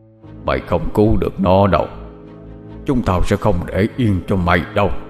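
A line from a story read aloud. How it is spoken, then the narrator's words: Deep gruff distant voice. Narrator (Vietnamese): tiếng nó ồm ồm nói vọng lại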